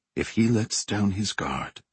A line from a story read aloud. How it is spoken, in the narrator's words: whispered